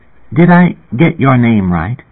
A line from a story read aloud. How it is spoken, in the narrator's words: Rachel Garrett asked me, in a timid and uncertain tone